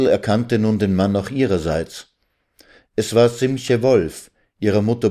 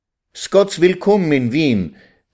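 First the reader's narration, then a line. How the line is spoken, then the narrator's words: Joyful calling out. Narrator (German): rief Vetter Simche freudig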